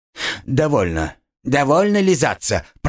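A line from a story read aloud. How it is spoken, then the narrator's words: Grumbling. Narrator (Russian): проворчал Буратино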